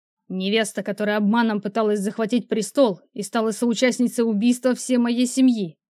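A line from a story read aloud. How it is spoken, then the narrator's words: Barked reply. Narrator (Russian): рявкнул в ответ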